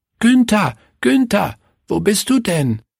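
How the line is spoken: Called out. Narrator (German): rief Willi

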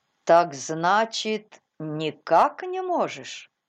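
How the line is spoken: Calm, thoughtful repetition. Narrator (Russian): спокойно повторил доктор, как если бы он хотел получше осознать эти слова

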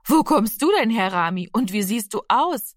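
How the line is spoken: Friendly laughing. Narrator (German): lachte die freundliche Frau

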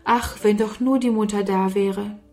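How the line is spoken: Sighing. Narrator (German): seufzte Sarah

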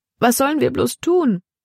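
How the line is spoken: Wailing. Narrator (German): jammerte Libby

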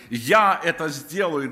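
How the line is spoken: Plain. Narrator (Russian): Господь говорит

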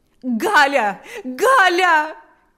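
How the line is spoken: Shouted. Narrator (Russian): кричала Марфа

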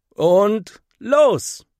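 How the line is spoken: Called out. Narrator (German): ruft Henry

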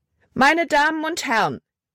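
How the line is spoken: Loud call. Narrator (German): rief sie laut

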